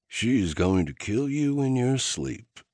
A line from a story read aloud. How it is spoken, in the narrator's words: Kai muttered